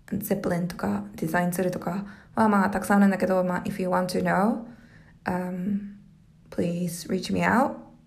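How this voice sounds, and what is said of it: Hoarse, raspy voice. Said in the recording (Japanese): “声がガラガラで、私はもう喉がなんでこんなに弱いんだろう”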